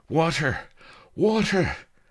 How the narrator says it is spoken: gasping

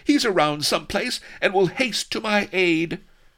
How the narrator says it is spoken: cried Vanity frantically

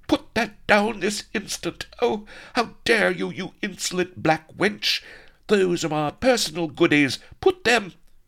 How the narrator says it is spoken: Vanity shrieked with outrage

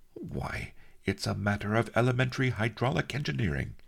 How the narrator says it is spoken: he exclaimed

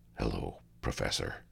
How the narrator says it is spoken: said, in a low and friendly tone

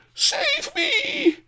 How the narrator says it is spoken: ancestress howled

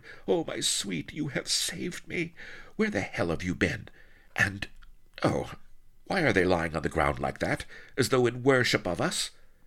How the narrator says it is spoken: she quavered

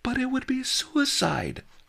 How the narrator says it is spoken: I exclaimed

